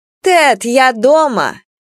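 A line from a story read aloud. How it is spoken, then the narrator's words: Shout. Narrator (Russian): Карина Романовна крикнула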